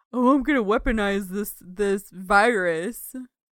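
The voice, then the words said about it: Mad scientist character voice. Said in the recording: “your DNA splicer guy impression”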